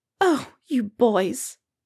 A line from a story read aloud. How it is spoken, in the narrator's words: Molly fusses tearfully